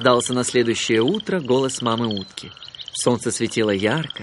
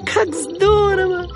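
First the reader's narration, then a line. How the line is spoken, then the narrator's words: Happy squeaky little voice. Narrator (Russian): пропищал он счастливым голоском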